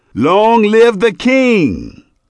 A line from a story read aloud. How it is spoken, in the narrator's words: All the people shouted and said